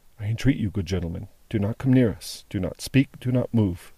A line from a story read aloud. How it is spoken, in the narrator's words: said, in a low voice